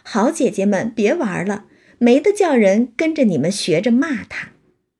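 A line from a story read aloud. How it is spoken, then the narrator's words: Hurried, laughing. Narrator (Chinese): 宝玉忙笑说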